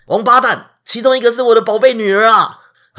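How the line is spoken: Angry king's order. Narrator (Chinese): 很生气的国王就下令

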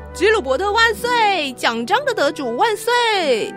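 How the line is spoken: Cheering shout. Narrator (Chinese): 有个人欢呼地叫着

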